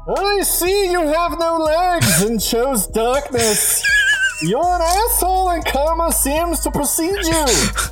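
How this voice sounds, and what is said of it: Bane character voice impression. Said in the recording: “my best Bane impression”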